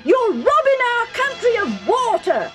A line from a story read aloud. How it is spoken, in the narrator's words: they yelled